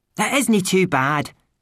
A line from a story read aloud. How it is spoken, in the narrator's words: shouted Rob Anybody